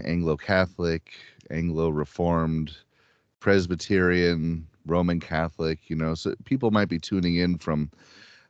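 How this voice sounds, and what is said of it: Midwestern American accent. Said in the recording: “I've been told I have a Midwest accent ... I guess I sound like people in Kellogg's commercials”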